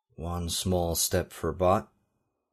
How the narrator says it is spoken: he murmured, emulating Neil Armstrong's Apollo 11 saying

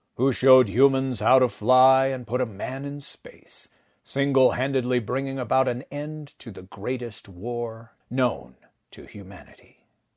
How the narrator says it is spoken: he said, his quiet baritone rumbling through Wilbur's chest

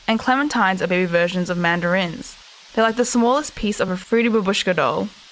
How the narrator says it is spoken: Alyssa said in her prissiest voice

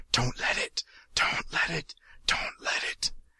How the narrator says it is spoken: someone is whispering in his ear, whispering frantically

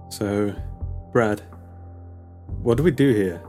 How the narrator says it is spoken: Her voice shook

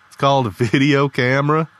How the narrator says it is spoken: Lee chuckled

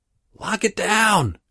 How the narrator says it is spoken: she screams

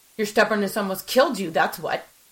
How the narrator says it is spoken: I snapped, my anger rising

